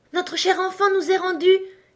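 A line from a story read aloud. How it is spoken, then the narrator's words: Father's joyful exclamation. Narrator (French): s'écria le père plein de joie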